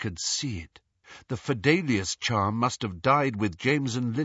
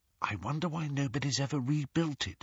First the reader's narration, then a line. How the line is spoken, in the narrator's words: whispered Hermione